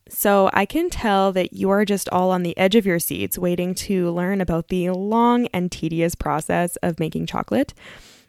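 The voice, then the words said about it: Sarcastic delivery. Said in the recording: “I was being sarcastic,”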